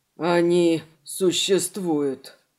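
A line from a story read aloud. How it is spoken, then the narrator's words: Breathed out. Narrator (Russian): выдохнул человек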